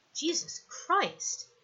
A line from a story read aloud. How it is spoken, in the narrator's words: he says quietly